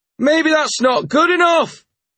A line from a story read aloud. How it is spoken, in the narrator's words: someone shouted